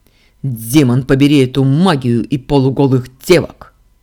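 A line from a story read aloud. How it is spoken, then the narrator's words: Sharp angry bark. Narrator (Russian): рявкнул принц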